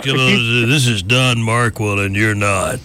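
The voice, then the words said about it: Impression of Don Markwell. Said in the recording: “I'm gonna see if you can do an impersonation of this person... So, Mr. Don Markwell.”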